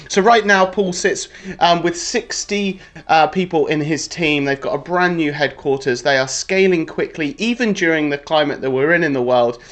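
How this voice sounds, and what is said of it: Excited energetic voice. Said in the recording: “you can tell by my voice just how excited I am”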